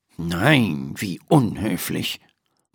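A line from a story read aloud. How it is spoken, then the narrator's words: Murmuring. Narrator (German): murmelt Dr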